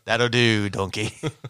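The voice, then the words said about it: Attempted Scottish cartoon ogre voice. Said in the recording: “I'm going to sound like Shrek. I can't do it. I can't do a Scottish accent.”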